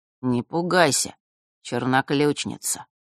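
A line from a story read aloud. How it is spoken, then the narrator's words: Unusually tender. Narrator (Russian): Голос Острогора звучал непривычно ласково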